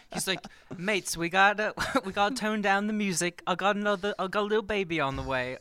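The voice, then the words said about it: Deliberately bad British accent. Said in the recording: “that British accent was really terrible.”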